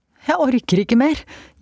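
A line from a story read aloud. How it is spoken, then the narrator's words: Breathless gasp while running. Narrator (Norwegian): gispet hun mens hun løp ned trappen så fort beina kunne bære henne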